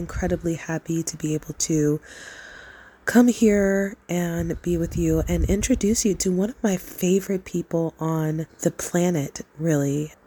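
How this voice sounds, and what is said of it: Scratchy, deeper sick voice. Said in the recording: “my voice is a little scratchy ... I have a respiratory virus ... my voice, you know, a few notes deeper today”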